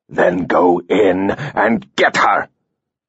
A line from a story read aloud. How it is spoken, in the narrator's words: Coman spat